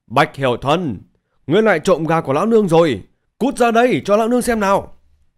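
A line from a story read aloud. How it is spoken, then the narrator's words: Woman screaming. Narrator (Vietnamese): tiếng gào thét của một phụ nhân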